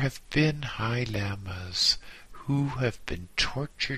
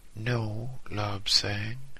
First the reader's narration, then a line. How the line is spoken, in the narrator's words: he replied sadly